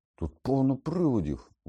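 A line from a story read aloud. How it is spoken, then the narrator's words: Exclaimed. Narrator (Ukrainian): вигукнув Рон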